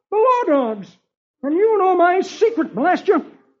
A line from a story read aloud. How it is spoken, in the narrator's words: The Sphinx exclaims